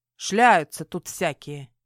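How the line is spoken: Woman grumbling. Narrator (Russian): буркнула женщина

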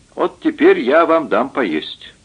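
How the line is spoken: Plain. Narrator (Russian): сказал

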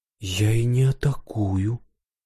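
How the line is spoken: Quiet reply. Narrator (Russian): ответила тихо она

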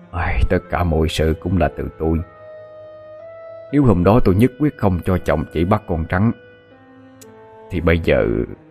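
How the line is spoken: Sighing speech. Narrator (Vietnamese): Ông Vũ cũng cúi đầu thở dài

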